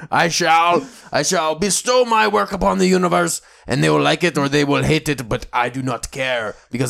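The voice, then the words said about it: Exaggerated fake French accent. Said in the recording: “Those terrible French accent.”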